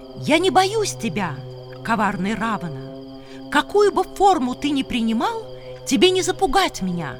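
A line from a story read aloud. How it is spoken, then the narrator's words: Shouting. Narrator (Russian): А Сита крикнула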